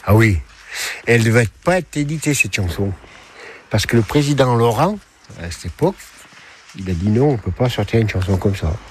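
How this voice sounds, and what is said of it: Saint-Étienne French regional accent. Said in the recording (French): “Les Stéphanois, ils sont connus ... pour leur accent ... L'accent.”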